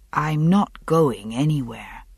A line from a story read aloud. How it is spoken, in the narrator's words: he said, quite gently